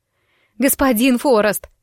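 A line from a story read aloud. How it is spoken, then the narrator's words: Breathless shout while running. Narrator (Russian): снова крикнула я, подбегая к нему и с трудом переводя дыхание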